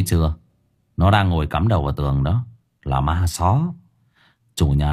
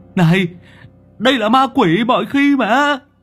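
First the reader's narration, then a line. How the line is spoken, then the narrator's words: Shriek. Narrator (Vietnamese): Nó rú lên một tiếng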